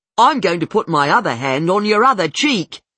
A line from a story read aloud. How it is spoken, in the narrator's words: Carl yells